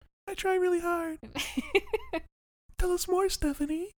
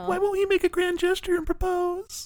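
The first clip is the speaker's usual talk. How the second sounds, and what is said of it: Performed character voice. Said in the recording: “you should do the Nina voice. It's good. ... It's good when you do it.”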